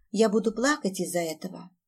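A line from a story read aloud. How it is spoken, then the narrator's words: Trembling child's question. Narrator (Russian): Дрожащим голосом поинтересовалась малышка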